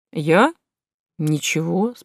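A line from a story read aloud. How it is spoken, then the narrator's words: Calm vacuum cleaner. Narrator (Russian): спокойно ответил пылесос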